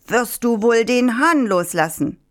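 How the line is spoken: Farmer calling out. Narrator (German): Der Bauer rief

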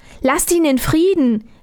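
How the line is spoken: Called out. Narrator (German): rief Armerle

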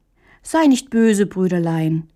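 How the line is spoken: Gentle reply. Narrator (German): erwiderte Hähnchen sanft

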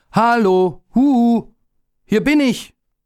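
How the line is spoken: Calling out. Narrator (German): rief er

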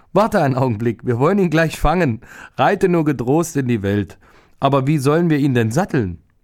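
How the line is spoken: Woman laughing loudly. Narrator (German): die Frau lachte laut und sagte

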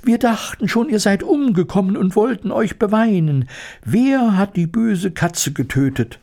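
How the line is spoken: Squeaky overlapping voices. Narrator (German): piepsten sie durcheinander

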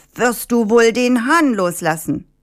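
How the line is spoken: Shouting. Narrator (German): Der Bauer rief

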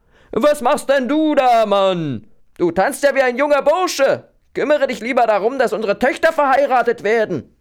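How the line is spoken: Wife calling from window. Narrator (German): seine Frau zum Fenster heraus und rief

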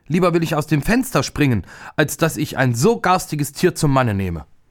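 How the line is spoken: Furious scream, princess. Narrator (German): Die älteste Prinzessin wurde vor Zorn ganz weiß und schrie

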